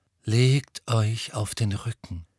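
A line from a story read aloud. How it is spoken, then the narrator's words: Calm voice. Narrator (German): sagte Firenze mit seiner ruhigen Stimme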